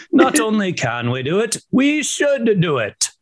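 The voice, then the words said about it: British accent impression of Henry Leach. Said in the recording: “I should try to do that with a better British accent ... Henry Leach impersonation”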